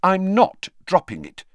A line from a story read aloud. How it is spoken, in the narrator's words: said Hermione firmly